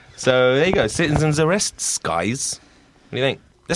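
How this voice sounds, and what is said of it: Usual voice. Nothing is said of it.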